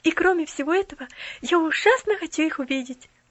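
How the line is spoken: Exclamation. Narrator (Russian): воскликнула она

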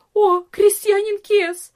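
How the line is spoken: Cried out, servant woman. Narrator (Russian): вскрикнула одна из служанок

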